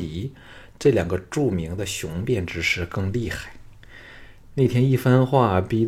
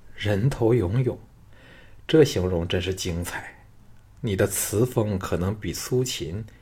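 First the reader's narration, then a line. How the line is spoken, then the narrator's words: Amused, surprised laugh. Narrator (Chinese): 赵牧哑然失笑道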